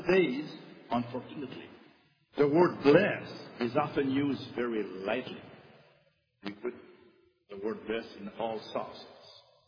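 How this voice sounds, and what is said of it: French accent. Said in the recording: “I have a French accent”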